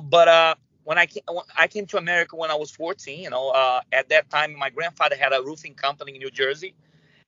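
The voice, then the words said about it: Brazilian-accented English. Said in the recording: “I was born in Brazil, so I speak Portuguese ... a little bit of, you know, the broke English. You can hear my accent”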